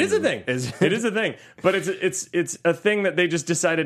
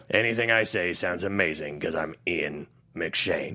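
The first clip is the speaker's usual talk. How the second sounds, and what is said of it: Imitates another person's voice. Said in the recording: “Very good. ... It's pretty good. ... That's your second impression of the day.”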